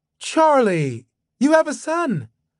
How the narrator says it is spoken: His mother gasped

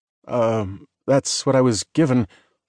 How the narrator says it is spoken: Lucas stammered

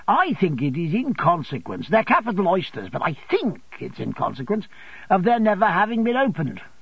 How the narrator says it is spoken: said Traddles, cheerfully

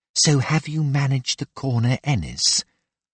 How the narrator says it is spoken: Her words floated to him on a whisper

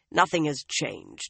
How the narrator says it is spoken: the scarred man growled

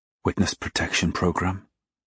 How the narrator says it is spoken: whispered Marie

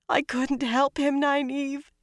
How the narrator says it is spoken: she sobbed

